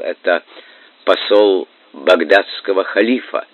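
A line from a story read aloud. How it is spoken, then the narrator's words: Astonished stammering. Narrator (Russian): У корабельщика раскрылся рот, и он, заикаясь, отвечал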